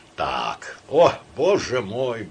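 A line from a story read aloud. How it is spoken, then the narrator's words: Sighing. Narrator (Russian): вздохнул Самойленко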